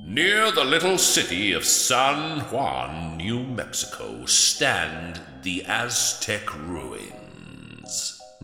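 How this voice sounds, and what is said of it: Thunderous, foreboding narrator voice. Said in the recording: “put on my thunderous foreboding voice”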